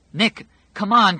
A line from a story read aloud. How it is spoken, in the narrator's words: Fran cried